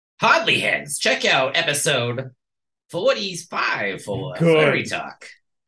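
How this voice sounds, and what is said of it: Imitates another person's voice. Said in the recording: “do like a Stan Lee bit ... my Stan Lee impression”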